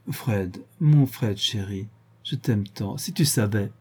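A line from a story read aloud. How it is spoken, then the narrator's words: Caressing murmur. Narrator (French): murmura d'une voix devenue caressante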